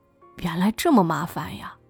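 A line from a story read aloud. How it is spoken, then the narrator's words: Muttering. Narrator (Chinese): 宋一宁嘀咕说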